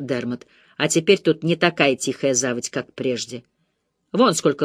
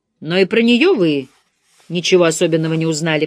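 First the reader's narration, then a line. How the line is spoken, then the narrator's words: Grumbling mutter. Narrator (Russian): пробурчал Дермат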